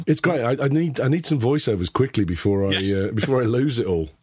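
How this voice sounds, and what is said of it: Hoarse voice. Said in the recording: “I'm still hoarse ... you sound awful, mate ... I've got this sexy voice ... Don't want to be being hoarse”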